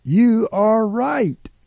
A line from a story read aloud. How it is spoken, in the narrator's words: Jesus number two jumped up and exclaimed